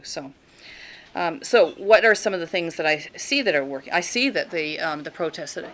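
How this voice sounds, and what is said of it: Talking too loudly. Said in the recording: “I'm talking too loud. My daughter's always telling me that I'm yelling”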